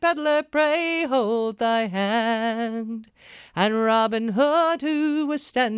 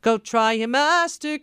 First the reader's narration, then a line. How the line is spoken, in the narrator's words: cried Little John